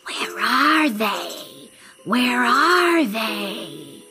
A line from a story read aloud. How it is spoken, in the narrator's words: the snake hissed